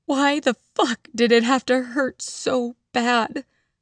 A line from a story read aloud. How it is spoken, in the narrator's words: I sobbed into my hands